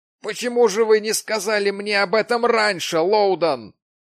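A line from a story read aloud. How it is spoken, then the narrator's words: Exclaimed. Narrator (Russian): воскликнул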